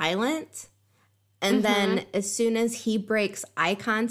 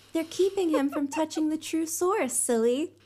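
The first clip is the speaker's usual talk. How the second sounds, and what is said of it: Imitated female character voice. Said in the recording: “That was my Elaine impression. ... It was very good.”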